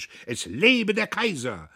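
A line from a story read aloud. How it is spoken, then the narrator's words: Crowd shouting along. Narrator (German): gefällig schrie das Häuflein mit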